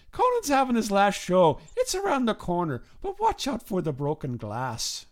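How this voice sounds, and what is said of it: Put-on Irish accent. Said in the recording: “the guy talks back to me in an Irish accent ... I stop with the Irish accent”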